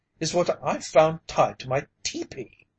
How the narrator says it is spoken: he cried

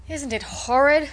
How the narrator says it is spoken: said Lily Page, hurrying by

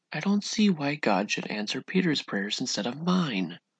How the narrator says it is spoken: he said bitterly

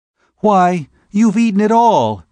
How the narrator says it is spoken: she exclaimed

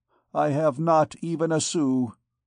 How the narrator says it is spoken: stammered Gringoire

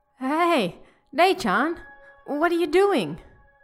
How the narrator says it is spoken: called out

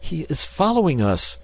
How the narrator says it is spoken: gasped Mr

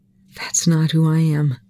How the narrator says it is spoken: Volker whispered

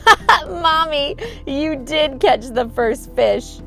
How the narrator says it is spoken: laughing

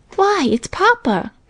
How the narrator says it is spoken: cried Minnie

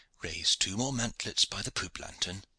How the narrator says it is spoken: said quietly

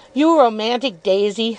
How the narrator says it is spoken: said Steerforth, laughing still more heartily

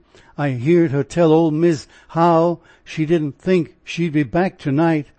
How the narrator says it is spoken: cried Maria, shuddering

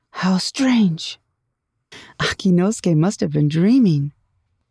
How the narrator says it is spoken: exclaimed with a laugh

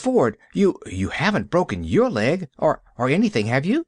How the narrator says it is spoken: She gasped

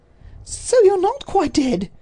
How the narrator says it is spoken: she cried

